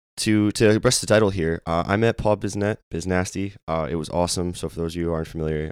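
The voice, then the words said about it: Hoarse, strained voice. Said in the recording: “apologize for the voice... I lost my voice... voice is very hoarse right now”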